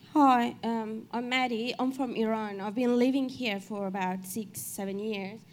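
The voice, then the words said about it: Non-native English accent. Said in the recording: “I've got accent, as you can hear ... You've got accent.”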